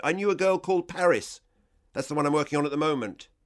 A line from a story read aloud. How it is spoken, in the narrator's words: I was on a roll now and shouted